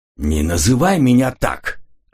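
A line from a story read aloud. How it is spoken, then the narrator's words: Irritated reply. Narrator (Russian): раздраженно ответил Коридан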